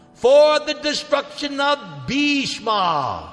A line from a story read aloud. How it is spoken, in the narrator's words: She cried out